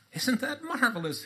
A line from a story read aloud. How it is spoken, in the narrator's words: He laughed